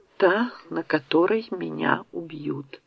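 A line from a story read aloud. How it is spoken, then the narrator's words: Quiet speech. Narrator (Russian): тихо произнес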